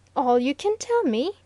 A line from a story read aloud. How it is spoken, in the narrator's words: exclaimed Mr